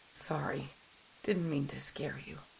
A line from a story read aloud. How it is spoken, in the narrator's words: Wardani whispered, his eyes awash with tears